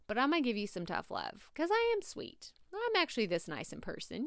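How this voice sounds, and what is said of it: Southern Texas drawl. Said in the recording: “my Southern accent, my Texas drawl”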